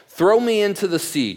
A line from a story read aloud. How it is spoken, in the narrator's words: Jonah said